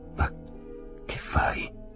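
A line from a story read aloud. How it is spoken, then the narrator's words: Whisper from behind. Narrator (Italian): udì sussurrare dietro di sé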